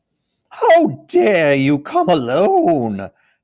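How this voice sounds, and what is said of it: Terrible witch voice. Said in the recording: “said the witch in a terrible voice.”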